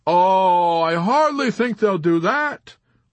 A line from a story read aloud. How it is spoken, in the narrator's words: Arfi replied with a jovial chuckle, although his symptoms of nervousness increased